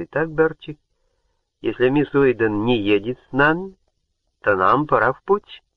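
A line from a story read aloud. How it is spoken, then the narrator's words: Even-voiced. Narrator (Russian): ровным голосом проговорил он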